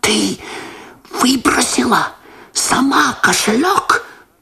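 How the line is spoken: Shocked whisper. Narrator (Russian): прошептал Лосар, меняясь в лице

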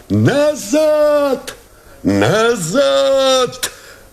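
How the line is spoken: Shout. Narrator (Russian): закричал Новиков

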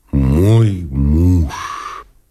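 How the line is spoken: Sighing. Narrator (Russian): сказала она, вздохнувши

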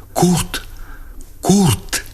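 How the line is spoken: Breathless whispered cry. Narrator (Russian): вскрикнула задохнувшимся шепотом

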